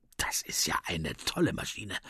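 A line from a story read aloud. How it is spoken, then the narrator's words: Murmuring. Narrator (German): murmelt Finn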